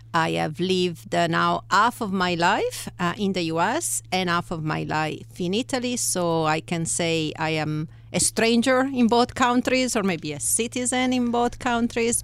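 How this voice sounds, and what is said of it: Italian accent in English. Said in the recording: “you hear of my accent. So I'm very happy to say I am originally from Italy. ... I still have my accent”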